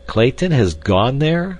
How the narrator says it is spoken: exclaimed Candler, visibly chagrined

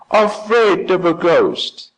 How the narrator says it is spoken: as loudly as they could

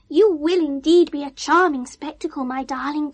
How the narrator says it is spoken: gasped Bernard

